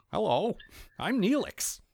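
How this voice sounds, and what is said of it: Exaggerated white guy voice. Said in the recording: “a black comedian doing a white dude voice ... the Dave Chappelle white guy impression”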